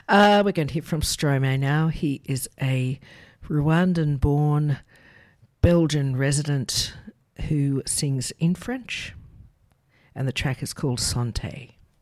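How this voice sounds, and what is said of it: Unusually deep voice. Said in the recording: “He's got a deep voice as well, a bit like mine today.”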